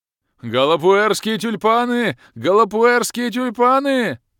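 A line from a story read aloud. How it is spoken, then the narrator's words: Bellowing at top of lungs. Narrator (Russian): Орал во всю глотку незнакомый мне игрок из клана Неспящих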